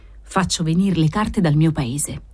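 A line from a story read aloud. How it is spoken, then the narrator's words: Sighing reply. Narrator (Italian): aveva risposto Don Gennaro, sospirando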